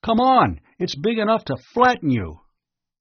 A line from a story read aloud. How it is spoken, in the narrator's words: Ring yelled